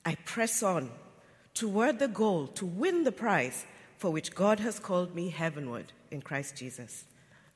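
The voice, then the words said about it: English accent. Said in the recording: “It just sounds so much better with that accent ... English accent”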